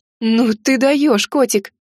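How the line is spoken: Exclaimed. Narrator (Russian): воскликнула я

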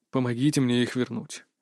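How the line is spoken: Unexpectedly quiet request. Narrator (Russian): неожиданно тихо попросил повелитель

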